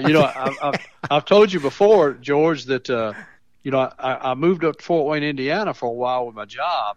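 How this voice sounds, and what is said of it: Tennessee Southern accent. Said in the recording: “you have a true marvelous Mount Pleasant, Tennessee accent”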